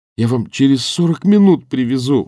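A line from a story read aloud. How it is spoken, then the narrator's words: Pleading. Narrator (Russian): взмолился Данилов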